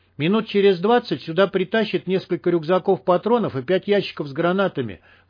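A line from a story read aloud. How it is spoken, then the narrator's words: Shout. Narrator (Russian): крикнул Хантер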